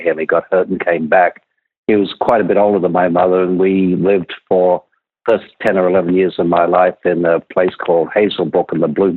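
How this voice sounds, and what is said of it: Australian accent. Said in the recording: “your early days in Australia, which we can still hear in your voice”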